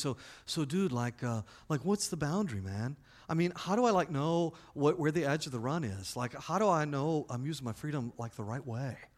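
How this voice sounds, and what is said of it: Laid-back snowboarder dude voice. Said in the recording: “In that snowboarder voice that you love to throw down”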